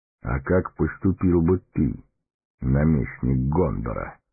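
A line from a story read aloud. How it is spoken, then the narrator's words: Calm question. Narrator (Russian): спокойно спросил Гэндальф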